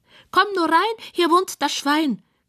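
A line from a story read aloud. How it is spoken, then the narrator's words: Squealing. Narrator (German): quiekt es von der Couch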